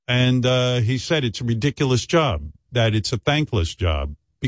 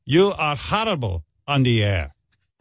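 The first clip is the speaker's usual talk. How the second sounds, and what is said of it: Put-on Israeli accent, Dracula-like. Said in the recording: “That's my impression of an Israeli dude. It's hard. I know he sounds like Dracula”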